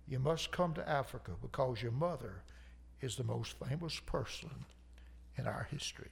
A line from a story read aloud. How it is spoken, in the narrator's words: He embraced with a long sobbing hug